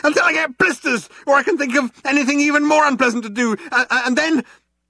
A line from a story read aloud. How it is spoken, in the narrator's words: yelled Arthur, still running